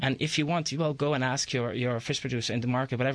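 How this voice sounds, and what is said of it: Speaks with a noticeable accent. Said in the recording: “My accent, I have made it a little special sound.”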